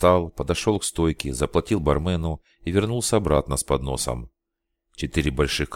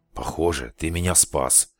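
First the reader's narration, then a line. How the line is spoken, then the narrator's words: Grumbling. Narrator (Russian): проворчал Алекс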